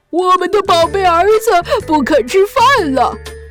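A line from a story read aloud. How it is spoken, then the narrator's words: Sorrowful crying shout. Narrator (Chinese): 鳄鱼爸爸和鳄鱼妈妈彻底失望了，他们哭了起来，伤心地喊道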